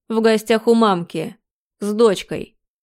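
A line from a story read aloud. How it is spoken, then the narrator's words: Mocking snort. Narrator (Russian): Хмыкнул Виктор, добавив глумливо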